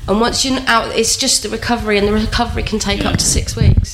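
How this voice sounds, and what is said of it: Sick, under-the-weather voice. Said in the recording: “you can tell I'm still under the weather”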